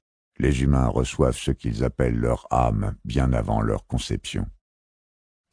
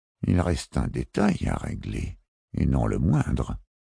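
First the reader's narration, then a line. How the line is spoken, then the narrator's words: Pensive murmur. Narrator (French): murmura-t-il d'une voix songeuse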